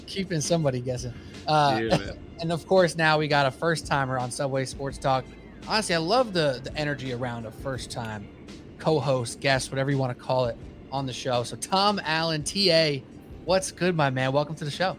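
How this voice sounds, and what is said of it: Deep radio-announcer voice. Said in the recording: “radio voice. You got the radio voice. ... he got that deep tone.”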